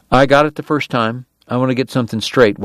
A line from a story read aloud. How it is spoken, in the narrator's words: Wyatt said